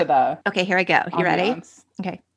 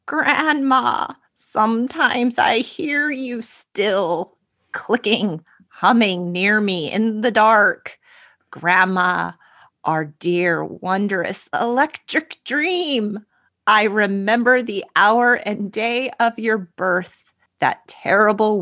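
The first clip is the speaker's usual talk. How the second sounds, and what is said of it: Old man voice. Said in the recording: “do an old man voice”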